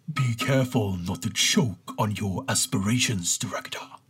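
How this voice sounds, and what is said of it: Darth Vader character voice. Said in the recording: “my best Darth Vader impression ... That's totally perfect.”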